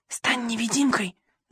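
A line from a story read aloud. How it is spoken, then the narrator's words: Whispering. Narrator (Russian): зашептал я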